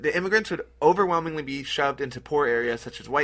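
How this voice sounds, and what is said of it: Usual voice. Nothing is said of it.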